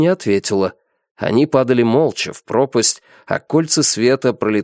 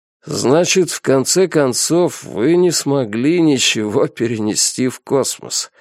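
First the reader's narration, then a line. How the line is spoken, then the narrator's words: Grim smiling tone. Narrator (Russian): мрачно улыбнулся Хуабей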